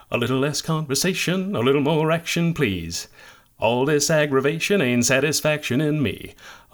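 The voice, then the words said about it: Elvis-style singing impression. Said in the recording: “I've been working on my Elvis impersonation”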